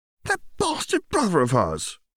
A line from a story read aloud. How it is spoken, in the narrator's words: Lulu exclaimed